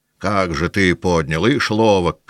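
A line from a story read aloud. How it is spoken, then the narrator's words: Hoarse shout. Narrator (Russian): кричал один хриплым голосом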